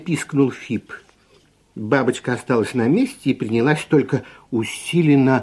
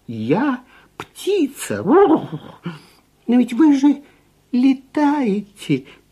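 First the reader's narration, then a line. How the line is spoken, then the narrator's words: Confused squeak. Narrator (Russian): пискнул совершенно сбитый с толку Фип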